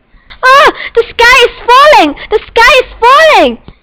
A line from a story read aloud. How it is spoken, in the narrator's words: she cried